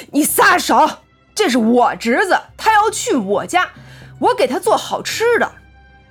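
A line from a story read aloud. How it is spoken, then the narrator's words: Angry. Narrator (Chinese): 邋遢男子对大黄牙怒道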